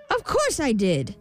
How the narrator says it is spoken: snapped the imp

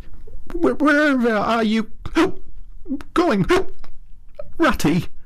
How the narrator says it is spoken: cried the tearful Mole, looking up in alarm

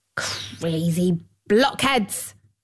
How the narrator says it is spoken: snapped the dwarf

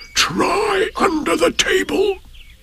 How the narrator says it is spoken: said in a loud whisper

